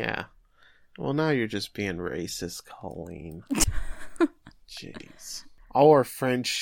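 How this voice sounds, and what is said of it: Usual voice. Nothing is said of it.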